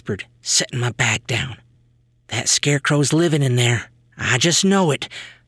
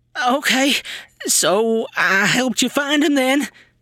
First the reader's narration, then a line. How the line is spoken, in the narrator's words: sputtered Brad